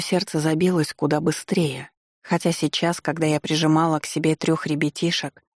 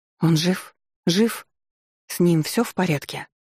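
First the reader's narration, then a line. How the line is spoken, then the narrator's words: Trembling voice. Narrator (Russian): спросила я дрогнувшим голосом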